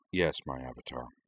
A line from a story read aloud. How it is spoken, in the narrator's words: murmured in a barely audible voice